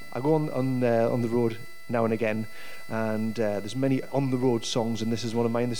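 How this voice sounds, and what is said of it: Regional English accent. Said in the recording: “As you can probably tell from the accent”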